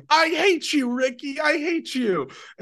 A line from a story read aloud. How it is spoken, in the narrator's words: his girlfriend, rather than having a normal reaction, like running away screaming, she just starts going